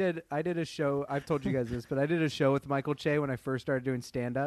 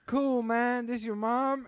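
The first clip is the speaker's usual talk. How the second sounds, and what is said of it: East LA gangbanger accent. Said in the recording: “that was like an East LA gangbanger accent for Michael Che”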